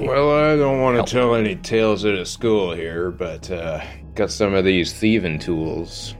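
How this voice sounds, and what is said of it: Surly gravelly narrator character voice. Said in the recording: “my surly narrator voice who is in the back of Physics' head all the time... He's unsure of the accent... He's basically got Sam Elliott in the back of his head”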